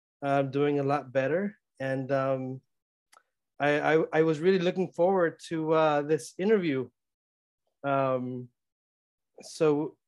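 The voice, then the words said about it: Sniffly, congested voice. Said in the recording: “my voice is a little bit uh, sniffly i have uh, you know the, the, sniffles and i still have a bit of a sore throat”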